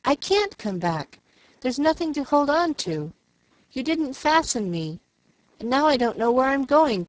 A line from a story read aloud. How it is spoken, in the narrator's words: cried Jill